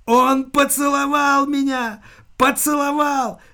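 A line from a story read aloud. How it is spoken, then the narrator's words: Shrieking. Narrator (Russian): визжал Ариэлла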